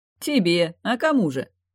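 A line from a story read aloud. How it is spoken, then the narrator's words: Short laugh. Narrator (Russian): хохотнул Стежар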